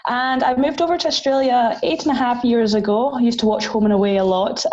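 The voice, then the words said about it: Scottish Highland accent. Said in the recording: “this accent is obviously not Australian. I am from the Highlands in Scotland”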